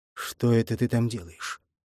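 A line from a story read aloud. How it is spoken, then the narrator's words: Gurgling whisper. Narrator (Russian): В шепоте Омра было еще больше бульканье, чем обычно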